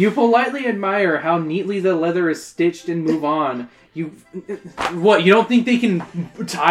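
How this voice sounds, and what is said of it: Usual voice. Nothing is said of it.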